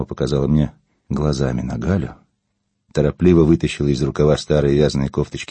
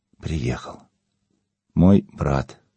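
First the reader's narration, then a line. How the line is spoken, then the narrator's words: Uncertain, hesitant. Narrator (Russian): неуверенно добавила она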